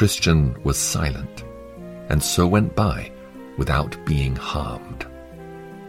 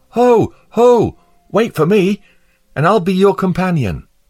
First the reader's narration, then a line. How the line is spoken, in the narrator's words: cried aloud